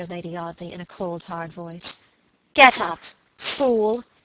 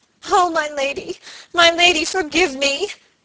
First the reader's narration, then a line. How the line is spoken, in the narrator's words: sobbed Phoebe